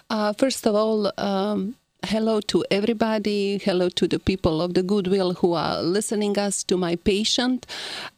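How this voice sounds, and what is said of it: Heavy Croatian accent. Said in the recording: “my heavy accent ... where I'm coming from, it is Croatia, former Yugoslavia”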